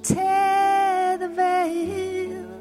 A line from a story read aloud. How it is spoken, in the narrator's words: the blood of Jesus cried out